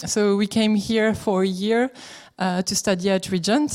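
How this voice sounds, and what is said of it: French accent. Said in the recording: “as you can tell with my accent, we are from France”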